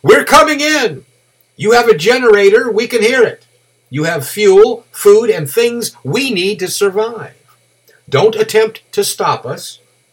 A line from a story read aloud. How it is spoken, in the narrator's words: A man held one hand to his mouth and yelled